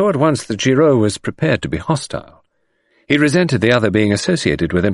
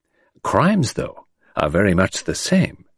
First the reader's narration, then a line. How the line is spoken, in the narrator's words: remarked Poirot gently